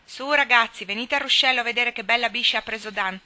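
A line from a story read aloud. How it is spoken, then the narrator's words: Distant shout from behind shed. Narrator (Italian): gridò una voce di dietro il capannone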